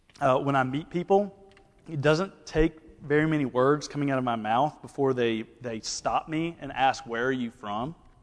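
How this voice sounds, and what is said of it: Mild Southern Alabama accent. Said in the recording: “Alabama ... My accent's not that bad ... I could show you people in Alabama that really have a southern accent”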